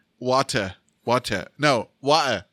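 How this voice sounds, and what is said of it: Attempted British accent. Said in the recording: “I tried to learn a British accent. I can't do it. I know how to say water in British ... That's the dirty British speaking.”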